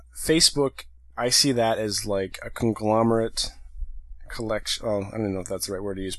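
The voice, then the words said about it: Strained, failing voice. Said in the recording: “my voice is going a little bit here.”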